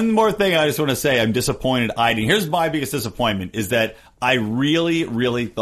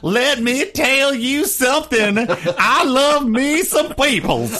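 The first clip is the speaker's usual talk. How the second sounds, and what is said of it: Hillary Clinton impression, Southern accent. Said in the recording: “Hillary Clinton was going to lapse into her Southern accent”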